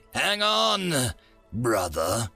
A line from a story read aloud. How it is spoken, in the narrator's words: the big one said with a slight snarl